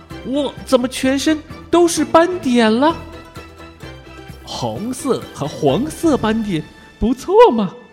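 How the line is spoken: Smug. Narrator (Chinese): 祖克得意地说

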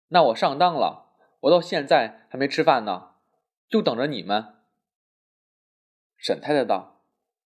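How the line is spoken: Laughing. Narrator (Chinese): 世君笑道

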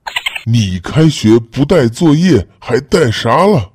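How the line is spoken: Furious. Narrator (Chinese): 老师大怒

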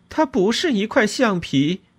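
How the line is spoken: Shouting. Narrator (Chinese): 我喊道

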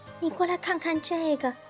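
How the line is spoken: Shouting. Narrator (Chinese): 詹姆士跑过来大叫着

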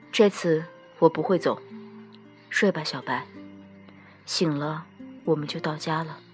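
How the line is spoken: Soft. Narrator (Chinese): 帝君轻声对他说

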